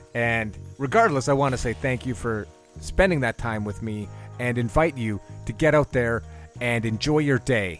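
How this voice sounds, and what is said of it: Sick, run-down, choked-up voice. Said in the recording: “I'm a little sick. I feel a little run down. Sorry if it sounds like I'm getting choked up.”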